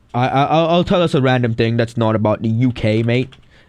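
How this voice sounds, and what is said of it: Put-on British accent. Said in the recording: “I tried to imitate a British accent.”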